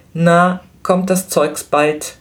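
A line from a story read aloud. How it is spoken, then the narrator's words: Calling out toward counter. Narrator (German): rief Flametti zum Schalter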